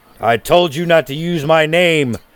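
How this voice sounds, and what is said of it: Slightly synthesized character voice. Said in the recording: “You hear from the background in a slightly synthesized voice.”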